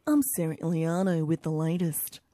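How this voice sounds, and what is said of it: Impression of the station newsreader. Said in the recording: “I want to do an impression of you for a second because you're new here. Yeah, just a little impression.”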